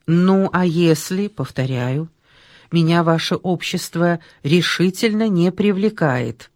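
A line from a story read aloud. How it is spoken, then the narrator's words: Sighing. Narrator (Russian): Нащекин вздохнул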